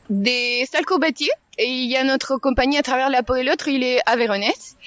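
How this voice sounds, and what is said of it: Slight Chilean accent. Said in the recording (French): “j'ai cette petite accent parce que je suis chilienne”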